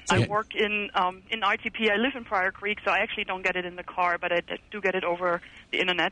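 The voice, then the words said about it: German accent. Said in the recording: “I sense an accent. ... originally Germany.”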